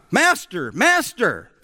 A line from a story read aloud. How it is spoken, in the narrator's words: shouted